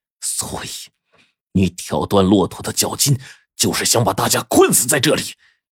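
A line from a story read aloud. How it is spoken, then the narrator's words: Suppressed anger, through teeth. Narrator (Chinese): 高原极力克制着怒火，咬牙切齿的问道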